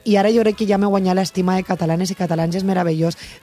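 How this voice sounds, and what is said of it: Valencian Catalan accent. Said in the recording (Catalan): “volem que continues mantenint el teu accent, la teua llengua, la teua parla ... la valenciana”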